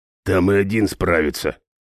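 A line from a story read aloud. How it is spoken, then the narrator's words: Grumbling. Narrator (Russian): проворчал Хал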